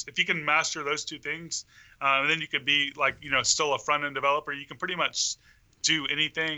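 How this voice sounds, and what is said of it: Southern US accent, Mississippi. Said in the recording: “what is your accent?... My mom's side of the family is all from Kentucky, and it was reminding me. I'm like, this sounds similar.”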